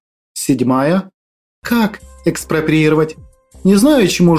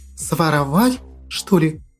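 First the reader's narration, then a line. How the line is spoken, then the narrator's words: Near whisper. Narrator (Russian): Почти шепотом произнесла она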